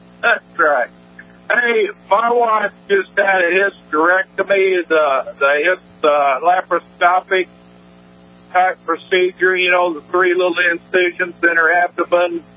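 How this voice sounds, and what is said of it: Southern American accent. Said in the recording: “you got a southern accent”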